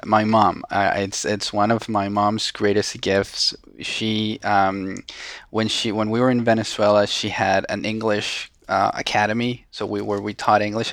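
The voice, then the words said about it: Thick Spanish-influenced accent. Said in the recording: “I still have a thick accent that my friends are constantly reminding me of.”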